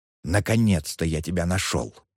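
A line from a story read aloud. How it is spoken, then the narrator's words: Whisper into ear. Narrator (Russian): прошептал он ей на ухо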